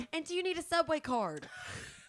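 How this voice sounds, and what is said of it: Southern American accent. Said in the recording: “I'm doing a Southern accent”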